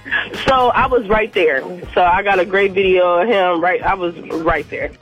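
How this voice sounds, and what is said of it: Raspy, partly lost voice. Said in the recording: “lost my voice, so I'm kind of raspy”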